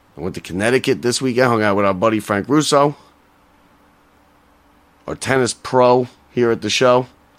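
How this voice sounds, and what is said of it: Hoarse, strained voice. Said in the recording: “I lost my voice.”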